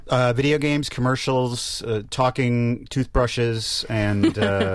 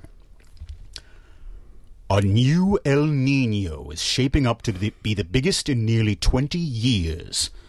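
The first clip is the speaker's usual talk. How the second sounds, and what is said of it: Deep Darth Vader villain voice. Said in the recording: “In the voice of Darth Vader ... There is processing involved in a Darth Vader voice, so that will be absent for this”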